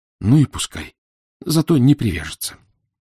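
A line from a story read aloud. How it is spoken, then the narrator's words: Heavy sigh, self-consoling. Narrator (Russian): Он тяжко вздохнул, а в утешение себе сказал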